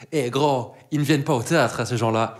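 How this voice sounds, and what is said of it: Imitates a strong local accent. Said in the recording (French): “avec le plus bel accent possible”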